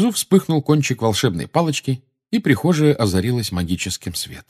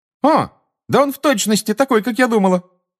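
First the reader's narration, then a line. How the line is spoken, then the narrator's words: Female exclamation. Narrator (Russian): воскликнула чародейка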